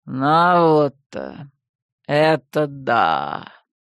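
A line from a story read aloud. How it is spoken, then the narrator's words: Drawn out, grimacing. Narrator (Russian): поморщившись, протянул Кощей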